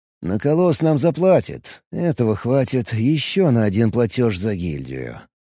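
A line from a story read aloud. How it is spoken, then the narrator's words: Muttered. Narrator (Russian): пробормотал Алекс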